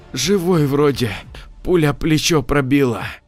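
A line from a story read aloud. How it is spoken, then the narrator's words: Hoarse whisper. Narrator (Russian): Павел хрипло прошептал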